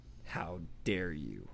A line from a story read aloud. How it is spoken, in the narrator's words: he snarled